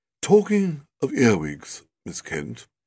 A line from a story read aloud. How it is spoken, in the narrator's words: said in a low, musical voice